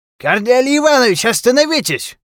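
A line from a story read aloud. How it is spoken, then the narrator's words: Shout. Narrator (Russian): крикнул профессор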